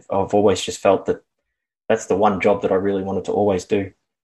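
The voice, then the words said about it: Australian accent. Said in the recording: “as listeners can likely tell from your accent, you're from Australia”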